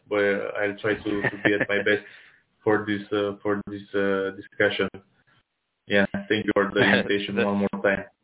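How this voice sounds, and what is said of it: Tired-sounding voice. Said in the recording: “my voice sounds a little bit tired”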